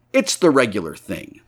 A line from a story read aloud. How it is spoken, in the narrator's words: said Jaffers